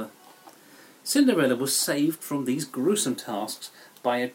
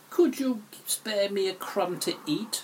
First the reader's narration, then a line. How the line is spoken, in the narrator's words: she croaked